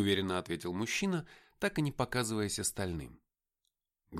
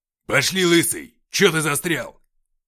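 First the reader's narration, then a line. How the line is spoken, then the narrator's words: Barking. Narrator (Russian): рявкнул он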